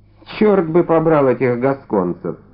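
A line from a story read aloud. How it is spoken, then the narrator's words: Muttering. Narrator (Russian): Все же пробормотал он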